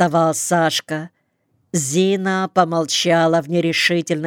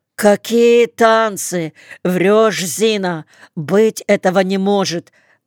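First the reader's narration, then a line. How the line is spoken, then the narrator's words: Almost shouted. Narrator (Russian): почти выкрикнул Сашка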